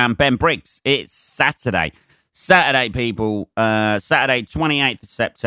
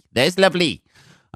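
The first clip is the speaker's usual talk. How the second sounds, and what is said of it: Bad put-on Welsh accent. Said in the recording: “That is the worst Welsh accent you're ever going to hear.”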